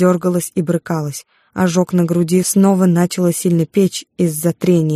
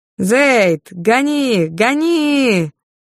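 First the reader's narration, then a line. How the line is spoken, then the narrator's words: Shout from behind. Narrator (Russian): крикнул кто-то сзади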